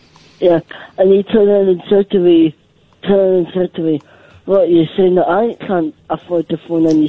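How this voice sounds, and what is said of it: Scottish accent. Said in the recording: “He said can't in a Scottish accent. It sounded like the other word, but it was can't ... excuse my Scottish accent”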